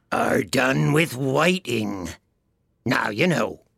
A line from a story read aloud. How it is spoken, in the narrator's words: the Gryphon went on in a deep voice